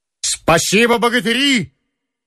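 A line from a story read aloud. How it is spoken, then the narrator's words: Energetic shout. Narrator (Russian): энергично крикнул он роте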